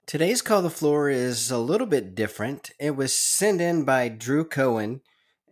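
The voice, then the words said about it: Voice sounds like he has a cold. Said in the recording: “I have a little bit of a cold”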